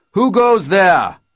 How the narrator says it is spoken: one of them shouted down at us

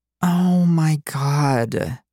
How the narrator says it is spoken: Violet breathed

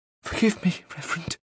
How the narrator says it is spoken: she whispered

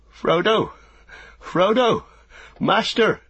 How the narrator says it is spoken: he cried, half-sobbing

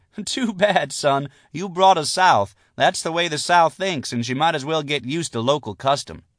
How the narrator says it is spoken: Lucy laughed and said

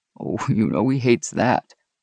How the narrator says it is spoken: Rex said with a soft laugh

